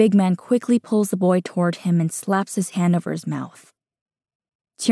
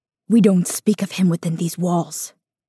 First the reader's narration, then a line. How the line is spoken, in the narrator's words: Small Wu whispers harshly